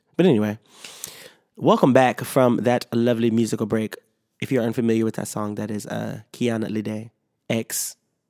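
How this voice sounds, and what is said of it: Slightly sick-sounding voice. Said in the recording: “I'm still a little sick, so if that sounded a little bad, you can hear the sickness in my voice.”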